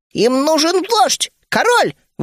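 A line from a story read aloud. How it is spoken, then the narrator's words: Exclaiming. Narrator (Russian): воскликнул Ми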